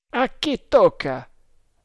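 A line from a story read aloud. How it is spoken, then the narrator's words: Shout. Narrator (Italian): gridò Tremal Naik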